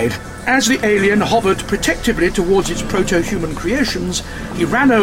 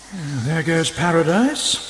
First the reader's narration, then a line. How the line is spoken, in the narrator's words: the doctor muttered